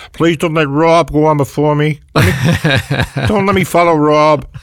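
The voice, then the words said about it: Impression of Ray Romano. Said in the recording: “it's a great impression.”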